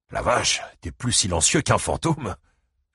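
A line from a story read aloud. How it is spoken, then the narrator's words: Exclaimed. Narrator (French): s'exclama-t-il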